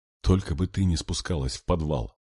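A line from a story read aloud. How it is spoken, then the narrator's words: Whisper. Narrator (Russian): прошептала Алла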